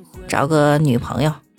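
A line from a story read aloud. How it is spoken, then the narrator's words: Calm, flat. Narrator (Chinese): 老李淡淡的说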